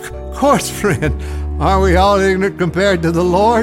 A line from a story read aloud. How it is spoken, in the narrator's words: the monk laughed